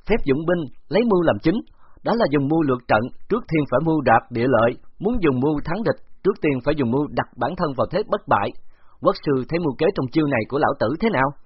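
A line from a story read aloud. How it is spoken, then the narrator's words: Loud, raised overpowering voice. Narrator (Vietnamese): Khấu Trọng thét lớn một tiếng, át hoàn toàn tiếng hét của Phục Nang Đà, đoạn cao giọng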